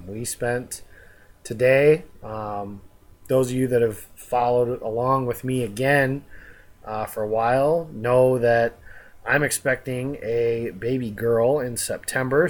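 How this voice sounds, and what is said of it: Tired-sounding voice. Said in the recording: “if I sound tired, it's because I am.”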